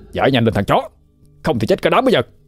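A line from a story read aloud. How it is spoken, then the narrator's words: Shout. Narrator (Vietnamese): Thằng Hưng hét lên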